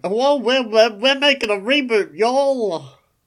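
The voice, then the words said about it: American accent drifting into British. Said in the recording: “He suddenly morphed into British ... that's just your American accent. Slightly morphing into British ... It's my transatlantic accent.”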